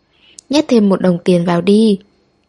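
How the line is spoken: Laughing, standard Beijing accent. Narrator (Vietnamese): người xếp hàng bật cười, dùng quốc ngữ rất chính thống, thậm chí còn mang theo giọng Bắc Kinh mà nói

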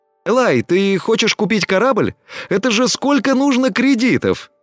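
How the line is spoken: Surprised exclamation. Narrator (Russian): Удивленно воскликнул Тина

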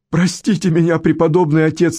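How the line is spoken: Sobbing. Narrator (Russian): рыдал Генри

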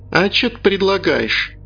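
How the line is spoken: Laughing. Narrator (Russian): Пит засмеялся

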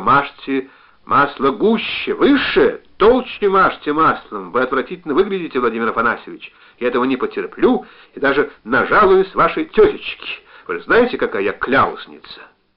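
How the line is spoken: Shouting. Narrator (Russian): она закричала

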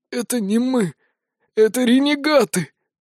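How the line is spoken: Dying wheeze. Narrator (Russian): прохрипел агонизирующий Айканар

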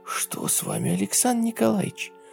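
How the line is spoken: Whispered question. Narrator (Russian): шепотом спросила Ева

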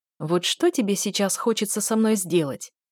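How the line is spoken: Very polite inquiring tone. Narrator (Russian): Таким вежливым-вежливым тоном поинтересовался Айк

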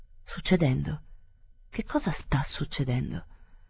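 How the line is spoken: Murmur. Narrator (Italian): la signora Verloc mormorò

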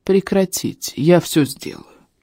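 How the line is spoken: Quiet interruption. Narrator (Russian): тихо прервал нас Экер

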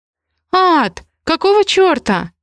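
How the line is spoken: Shrieked. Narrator (Russian): Взвизгнула Ри

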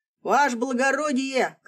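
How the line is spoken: Shouting. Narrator (Russian): кричал вестовой

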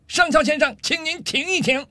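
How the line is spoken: Angry loud shout. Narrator (Chinese): 上尉气得涨红了脸，冲着上校的方向大声喊道

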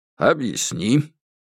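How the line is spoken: Calm order. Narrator (Russian): Сюй Жуйлун, конечно, не мог проявить свое особое отношение перед всеми, поэтому просто спокойно приказал

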